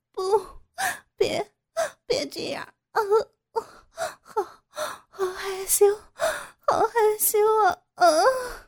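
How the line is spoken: Sobbing cries. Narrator (Chinese): 傅菊英不停的摇着头哭叫

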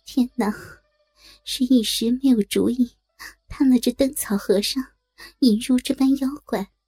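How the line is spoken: Sighing. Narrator (Chinese): 对着灯叹口气道

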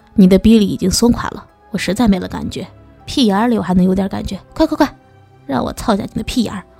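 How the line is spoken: Loud male voice. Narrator (Chinese): 那男人大声的说道

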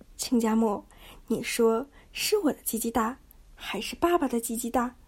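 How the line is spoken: Plain. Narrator (Chinese): 一边说

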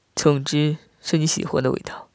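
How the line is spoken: Laughing. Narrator (Chinese): 我笑道

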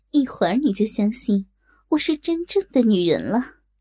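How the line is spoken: Laughing. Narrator (Chinese): 东方不败笑道

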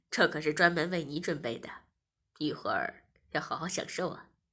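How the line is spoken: Smiling. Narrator (Chinese): 我笑了笑，便说

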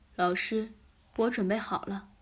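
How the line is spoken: Soft voice. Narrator (Chinese): 小梅轻声说

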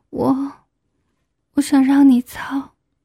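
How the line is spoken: Trembling, embarrassed. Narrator (Chinese): 我满脸通红，声音颤抖着说

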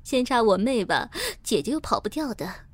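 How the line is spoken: Laughing. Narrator (Chinese): 我……笑着说

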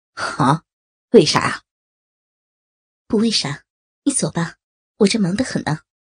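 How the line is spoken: Cold. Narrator (Chinese): 诗雅冷冷的说

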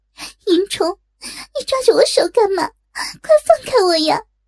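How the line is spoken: Crying out in tears. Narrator (Chinese): 眼中涌出泪来，哭叫道

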